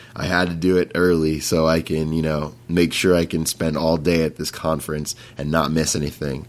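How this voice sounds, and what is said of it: Raspy voice. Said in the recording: “my voice is super raspy because it's early in the morning right now”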